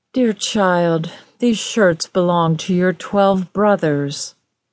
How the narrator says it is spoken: The queen sighed as she replied

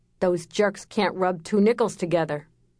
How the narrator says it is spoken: Sammy snorted

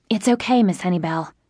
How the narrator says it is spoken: I whispered

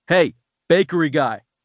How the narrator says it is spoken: Kevin shouted, wishing he didn't have to

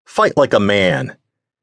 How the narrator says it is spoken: the man who shouted

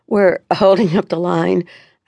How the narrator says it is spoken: I stammered out

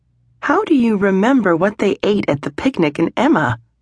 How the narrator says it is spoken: Charlotte asked with a laugh

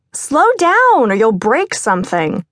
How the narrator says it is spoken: Steph hollered

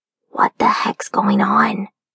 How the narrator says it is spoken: Sully, seeing what I see, whispers

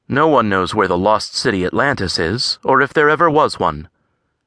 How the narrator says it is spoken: John said flatly

